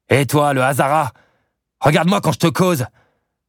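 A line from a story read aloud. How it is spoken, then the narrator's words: Soldier barking harshly. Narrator (French): aboya le soldat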